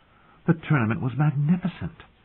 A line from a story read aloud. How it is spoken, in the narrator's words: sighed